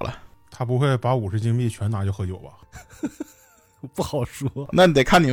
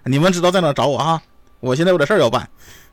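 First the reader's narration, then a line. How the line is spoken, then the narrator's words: Happy shout. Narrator (Chinese): 我开开心心的，对着我队友大喊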